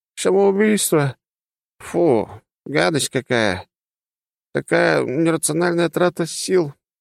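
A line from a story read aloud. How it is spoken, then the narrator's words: Yawning cat's purr. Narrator (Russian): прикрывая зевающий рот, что-то промурлыкал кот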